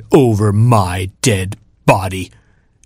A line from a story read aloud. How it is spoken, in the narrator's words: snapped